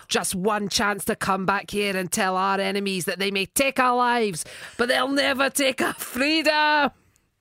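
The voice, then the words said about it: Strong Scottish accent. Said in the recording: “a Scottish accent there is better than anything Mel Gibson did in the entire film”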